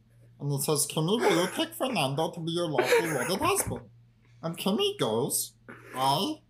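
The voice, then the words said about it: Silly strained character voice. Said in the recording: “I'm doing a silly voice. I'm doing a silly voice. ... It's just a very silly voice. ... If it's starting to hurt my throat”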